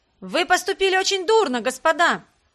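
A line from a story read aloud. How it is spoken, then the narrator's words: Shouting. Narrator (Russian): кто-то закричал им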